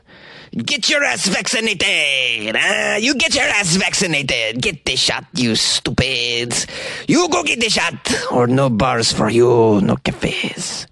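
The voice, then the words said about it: Attempted French accent, sounding Mexican. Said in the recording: “That was more of a Mexican president impression than the French president. I gotta work on my French accent.”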